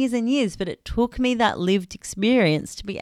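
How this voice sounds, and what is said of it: Usual voice. Nothing is said of it.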